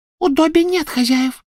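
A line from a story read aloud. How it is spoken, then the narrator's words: Squeaky reply. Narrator (Russian): пропищал он в ответ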